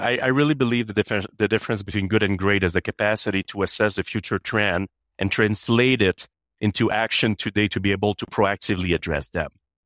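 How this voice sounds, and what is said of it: Canadian accent. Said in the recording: “You can hear, I have an accent. I'm Canadian.”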